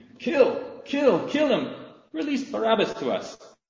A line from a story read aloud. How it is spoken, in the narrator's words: This mighty roar arose from the crowd saying